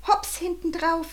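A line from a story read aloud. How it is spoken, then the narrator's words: Calling out. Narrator (German): rief er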